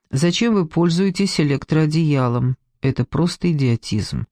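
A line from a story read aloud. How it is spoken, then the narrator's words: Indifferent tone. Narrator (Russian): скажу безразличным тоном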